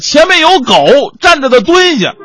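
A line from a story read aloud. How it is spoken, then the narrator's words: Loud shout. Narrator (Chinese): 司机大喊一声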